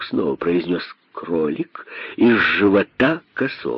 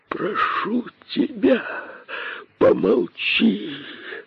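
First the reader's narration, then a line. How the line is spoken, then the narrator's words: Terrified pleading. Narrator (Russian): взмолился косой, холодея от ужаса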